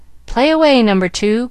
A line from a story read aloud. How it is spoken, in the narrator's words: called out Frank